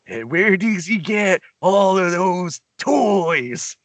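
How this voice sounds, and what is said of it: Deliberately bad Joker impression. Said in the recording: “bad Joker impression ... Give us your worst Joker impression.”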